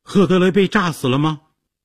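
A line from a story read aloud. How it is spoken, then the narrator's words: Shouted question. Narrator (Chinese): 杰西卡大叫着问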